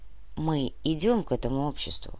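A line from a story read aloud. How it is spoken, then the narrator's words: Quiet. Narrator (Russian): тихо произнес Кортес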